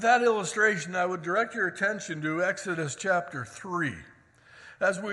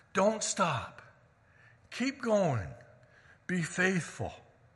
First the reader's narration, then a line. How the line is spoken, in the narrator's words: whisper in our ear